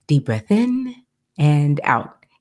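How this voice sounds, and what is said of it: Soothing, calm podcast voice. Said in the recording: “soothing podcast voice”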